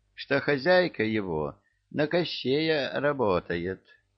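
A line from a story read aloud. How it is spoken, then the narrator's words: Thoughtful drawl. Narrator (Russian): задумчиво протянул Чебурашка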